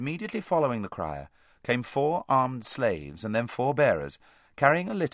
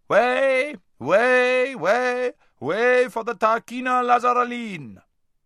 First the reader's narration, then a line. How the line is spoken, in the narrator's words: was heard shouting out